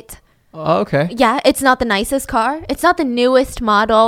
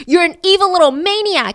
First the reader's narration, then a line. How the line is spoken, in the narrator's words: yelled